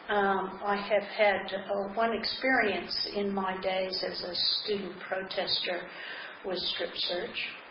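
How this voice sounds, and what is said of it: American accent. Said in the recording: “As you probably can tell by my accent, I come from the United States originally.”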